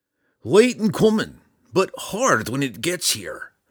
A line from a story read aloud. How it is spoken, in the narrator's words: grumbled, a red-bearded dwarf